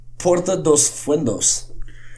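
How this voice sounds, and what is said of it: Put-on Spanish accent. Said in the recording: “I sounded like I had a good accent right there, didn't I?”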